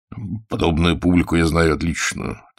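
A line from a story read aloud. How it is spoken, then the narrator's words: Quiet. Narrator (Russian): тихонько сказал Загорскому Назаров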